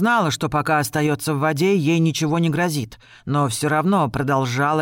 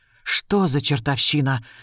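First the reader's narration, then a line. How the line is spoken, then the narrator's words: Breathless gasp. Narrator (Russian): выдохнула девушка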